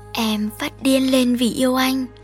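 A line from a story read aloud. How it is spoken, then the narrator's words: Sleepy whispered confession. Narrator (Vietnamese): Trước khi chìm vào giấc ngủ bình yên ... cô thì thầm thú nhận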